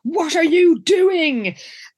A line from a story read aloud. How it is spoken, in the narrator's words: And he roars